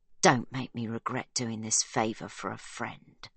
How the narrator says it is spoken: she hisses

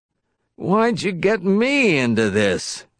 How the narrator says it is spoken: Wisconsky moaned to Hall

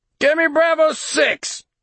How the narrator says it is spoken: Simpson barked

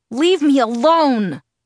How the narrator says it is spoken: I screamed at him through my tears, which were flowing relentlessly now

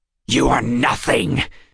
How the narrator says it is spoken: Zane spat

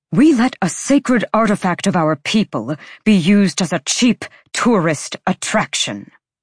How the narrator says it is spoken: his father snapped

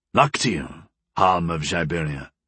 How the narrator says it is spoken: Gol said in a grave tone

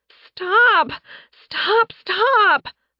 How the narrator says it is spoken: the twins wailed

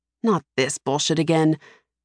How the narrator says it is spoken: Hallis mutters

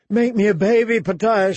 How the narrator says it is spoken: she screamed

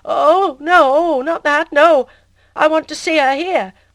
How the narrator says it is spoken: in a stammering, frightened voice

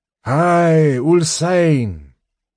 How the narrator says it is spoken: a clear voice called out

